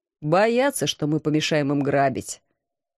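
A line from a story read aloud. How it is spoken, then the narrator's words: Calm reply. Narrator (Russian): спокойно ответил командор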